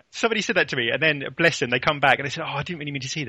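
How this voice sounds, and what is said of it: English accent. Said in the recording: “that English accent drives me spare... I can't really change my accent.”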